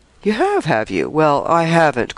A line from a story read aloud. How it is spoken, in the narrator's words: cried with an agreeable chuckle